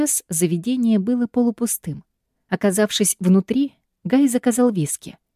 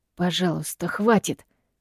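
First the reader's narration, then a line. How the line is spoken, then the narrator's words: Hissed. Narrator (Russian): зашипел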